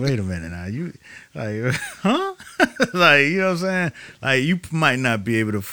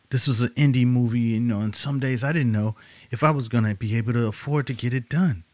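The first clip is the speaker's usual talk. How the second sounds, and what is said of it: Imitates another person's voice. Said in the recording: “I like your Halle Berry impression.”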